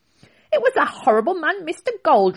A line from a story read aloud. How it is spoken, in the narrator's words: Rocky's grandmother said angrily